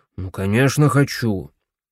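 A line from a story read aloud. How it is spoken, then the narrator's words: Grumbled. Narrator (Russian): проворчал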